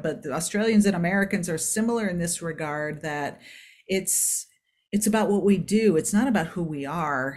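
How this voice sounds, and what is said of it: Non-Australian foreign accent. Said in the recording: “you can hear from my accent, I'm not from around Australia”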